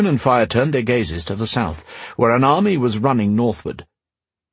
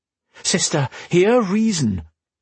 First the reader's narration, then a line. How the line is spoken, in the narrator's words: Raven pleaded